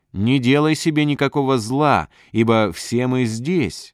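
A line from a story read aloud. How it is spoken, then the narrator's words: Loud call. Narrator (Russian): Павел воззвал громким голосом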